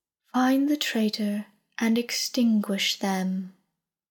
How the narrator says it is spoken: said smoothly

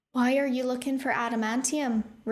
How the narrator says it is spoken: Rune asked in his false accent

